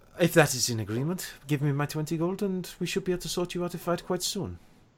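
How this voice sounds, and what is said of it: Character voice with inconsistent accent. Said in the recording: “my accent is all over the place because I can't quite remember what this man's voice was before ... this has changed like 6 times in this conversation”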